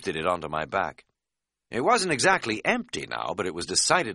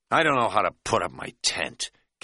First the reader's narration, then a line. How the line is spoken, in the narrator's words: Kat said in a petulant tone